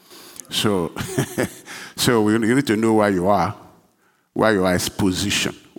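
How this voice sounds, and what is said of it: Speaks with a non-native accent. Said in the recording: “I may have accent”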